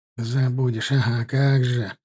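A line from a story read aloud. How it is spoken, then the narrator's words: Grumbling. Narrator (Russian): проворчал Герасим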